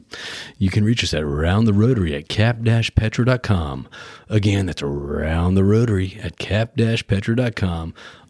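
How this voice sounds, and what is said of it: Announcer-style voiceover voice. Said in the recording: “I'll do the voiceover voice.”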